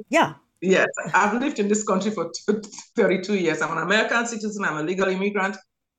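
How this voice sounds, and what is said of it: Foreign accent. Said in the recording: “of course from my beautiful accent you know I'm an immigrant”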